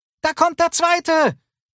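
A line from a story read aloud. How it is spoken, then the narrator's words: Calling out. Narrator (German): rief Lucy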